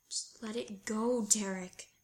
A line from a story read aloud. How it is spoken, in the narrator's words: he wheezes out